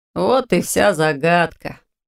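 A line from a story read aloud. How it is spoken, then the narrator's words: Young man smirking. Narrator (Russian): хмыкнул парень, сидевший рядом с Ирис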